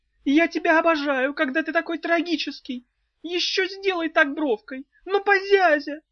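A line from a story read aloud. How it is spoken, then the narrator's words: Unrepentant yelling. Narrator (Russian): Вместо того, чтобы раскаяться, она заорала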